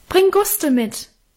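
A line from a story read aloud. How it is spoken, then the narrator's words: Calling into darkness. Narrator (German): rief in die Dunkelheit nach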